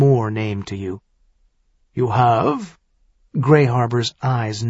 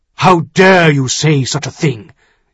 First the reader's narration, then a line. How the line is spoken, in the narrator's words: he demanded harshly